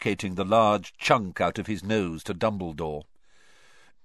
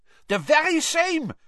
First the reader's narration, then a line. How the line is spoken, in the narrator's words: said Karkaroff eagerly